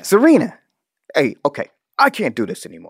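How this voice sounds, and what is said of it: Impression of a TV character. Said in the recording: “my Dan impression.”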